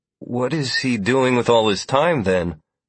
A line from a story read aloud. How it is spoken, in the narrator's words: Sierra asked hesitantly